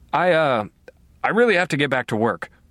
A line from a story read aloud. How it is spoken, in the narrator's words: I stammered